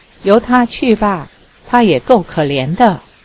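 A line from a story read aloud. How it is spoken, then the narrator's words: Sighing. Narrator (Chinese): 尼儿叹了一口气道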